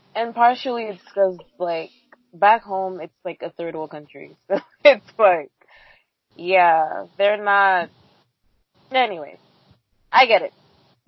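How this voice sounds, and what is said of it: Speaks with an accent. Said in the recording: “I'm like, using my accent, which I never do when I'm talking to Dominicans”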